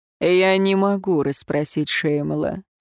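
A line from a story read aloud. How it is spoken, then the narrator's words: Calm objection. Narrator (Russian): спокойно возразил Эруан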